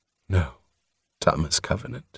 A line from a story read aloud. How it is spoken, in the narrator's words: said sadly